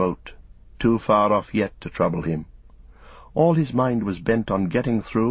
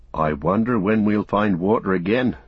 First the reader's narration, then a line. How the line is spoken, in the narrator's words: said Sam